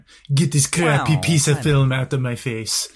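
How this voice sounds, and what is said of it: Snooty film-snob accent. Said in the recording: “I'm going to do my snooty Criterion lover's accent.”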